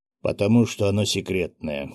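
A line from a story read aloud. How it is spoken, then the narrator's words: Stern. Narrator (Russian): строго произнес Виктор Харитонович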